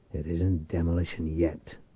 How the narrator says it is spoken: Reich muttered

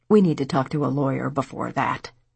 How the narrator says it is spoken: Diane grumbled to Patty

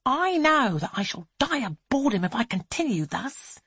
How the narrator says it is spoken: Angelica hisses

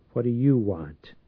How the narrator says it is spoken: Church asked sullenly

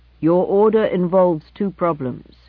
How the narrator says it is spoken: replied the computer

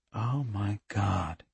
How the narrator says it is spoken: Andy said faintly

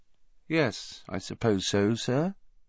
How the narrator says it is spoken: he said finally, in an expressionless voice

